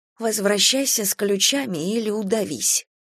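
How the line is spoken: Whispered. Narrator (Russian): прошептала

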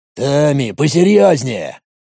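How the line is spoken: Grumbled. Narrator (Russian): проворчал Владимир

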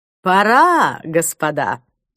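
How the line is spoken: Brisk cheerful command. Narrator (Russian): бодрым голосом скомандовал Клайв

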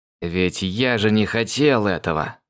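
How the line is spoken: Groan. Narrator (Russian): Простонал

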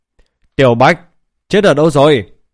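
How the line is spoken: Loud call. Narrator (Vietnamese): lã giả lớn tiếng hô lên

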